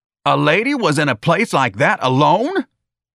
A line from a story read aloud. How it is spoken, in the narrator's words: the sergeant screamed